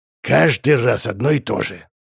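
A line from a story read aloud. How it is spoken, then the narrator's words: Mock-grumbling. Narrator (Russian): Скорее для меня, чем от недовольства, пробурчал Петр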